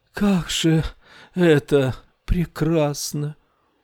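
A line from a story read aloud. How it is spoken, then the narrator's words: Sighing whisper. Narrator (Russian): Рар-Уту вздохнула и прошептала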